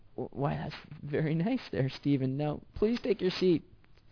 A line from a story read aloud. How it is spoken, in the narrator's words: She stammered